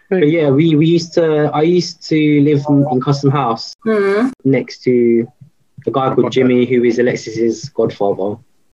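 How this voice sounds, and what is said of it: Essex English accent. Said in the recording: “I'm not talking Australian accent. I'm talking my fucking Essex accent.”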